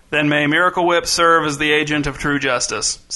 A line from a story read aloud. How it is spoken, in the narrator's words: said King Lionel, reciting the official words in a bored voice